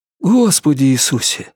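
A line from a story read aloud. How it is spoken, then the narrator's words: Breathed out. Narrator (Russian): выдохнул Норрис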